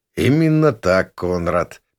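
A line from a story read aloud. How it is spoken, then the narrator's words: Sad. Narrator (Russian): печально кивнул мне Гросханим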